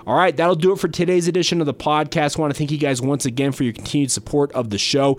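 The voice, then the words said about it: Shaky, worn voice from a cold. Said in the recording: “Pardon my shaky voice today... my voice has been a little bit shot this week, dealing with a small head cold”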